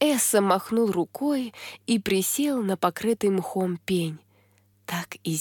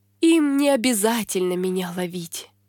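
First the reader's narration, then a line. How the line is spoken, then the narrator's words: Sad sigh. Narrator (Russian): печально вздохнул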